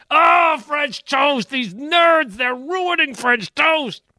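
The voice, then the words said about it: Yelling Goose Gossage impression. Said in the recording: “my impersonation of Goose Gossage's yelling and screaming”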